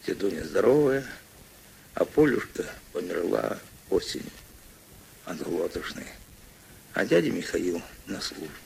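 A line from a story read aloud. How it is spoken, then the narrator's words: Quiet reply. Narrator (Russian): Мишатка тихо ответил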